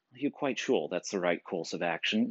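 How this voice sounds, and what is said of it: Put-on posh British accent. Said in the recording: “that British accent.”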